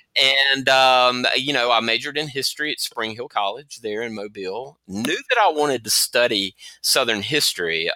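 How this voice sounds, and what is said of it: Southern US accent (Alabama). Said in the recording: “I'm originally from Mobile, Alabama. I know the accent probably gives that away.”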